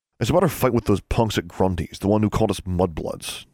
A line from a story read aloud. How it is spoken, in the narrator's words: David snarled